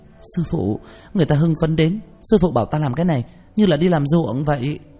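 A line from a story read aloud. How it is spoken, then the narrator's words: Loud, brash woman. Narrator (Vietnamese): Nàng phát huy phong cách của nữ hán tử, lớn tiếng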